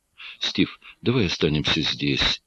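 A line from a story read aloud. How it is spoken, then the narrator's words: Female whisper. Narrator (Russian): прошептала Джин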